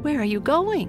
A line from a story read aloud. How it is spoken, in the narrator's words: She cried